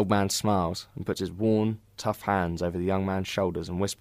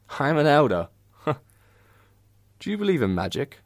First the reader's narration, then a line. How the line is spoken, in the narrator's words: The old man laughing